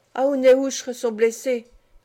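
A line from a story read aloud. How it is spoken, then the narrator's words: Sad remark. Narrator (French): remarqua tristement le Oua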